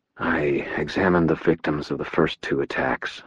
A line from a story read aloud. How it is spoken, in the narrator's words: I said quietly